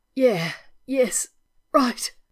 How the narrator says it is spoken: Rodney gasped

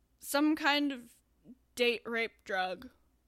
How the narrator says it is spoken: Neil slurred

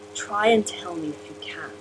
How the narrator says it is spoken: the Master said, his voice a half husky, near whisper

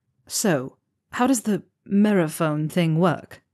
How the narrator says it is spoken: Neville chuckled

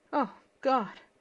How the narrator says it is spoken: gasped

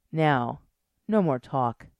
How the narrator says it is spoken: she purred

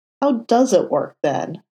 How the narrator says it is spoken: Foggy demanded

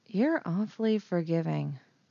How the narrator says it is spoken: Leia murmured

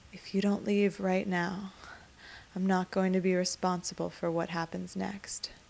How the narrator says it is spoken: Adam whispers against the side of his face

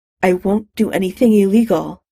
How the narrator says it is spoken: she said in a tight voice

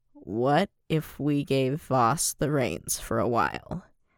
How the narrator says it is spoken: There was a taut silence before Mace said slowly

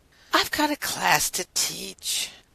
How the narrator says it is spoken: Rodney said with a heavy sigh

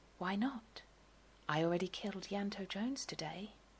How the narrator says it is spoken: he whispers as Jack dies

